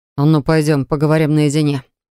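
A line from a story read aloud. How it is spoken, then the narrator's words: Growled. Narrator (Russian): прорычал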